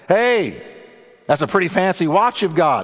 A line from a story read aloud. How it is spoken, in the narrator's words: exclaimed the stranger